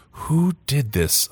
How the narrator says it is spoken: I whispered

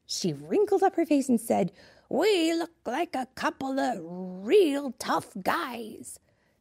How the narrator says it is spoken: she said in a tough guy voice, which for a grandma to do a tough guy voice

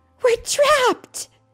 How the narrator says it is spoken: Jesse cried

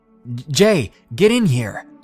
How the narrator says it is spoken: He was yelling over the bass of the music

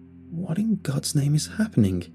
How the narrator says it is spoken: I muttered to myself

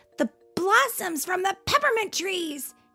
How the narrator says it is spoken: he shouted

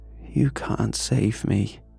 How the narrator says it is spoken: she whispered

